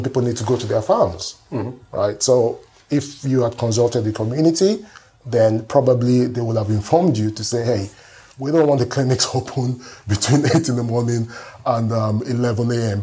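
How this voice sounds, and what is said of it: Nigerian accent. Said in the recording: “Where is your accent from? ... I'm from Nigeria.”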